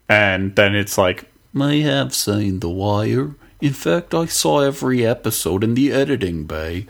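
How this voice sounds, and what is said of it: Baltimore accent. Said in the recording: “that Baltimore accent that I missed that I haven't heard since watching The Wire”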